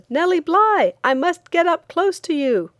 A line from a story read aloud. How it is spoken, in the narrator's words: There was one man on the outskirts of the crowd who shouted